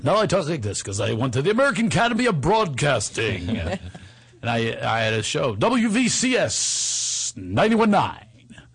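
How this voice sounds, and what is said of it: Radio announcer voice. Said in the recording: “That was my radio voice.”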